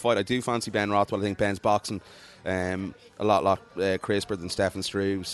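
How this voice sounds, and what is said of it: Unexcited, flat delivery. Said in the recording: “I'm not really excited about it. I'm not going to lie, as you probably heard in my voice.”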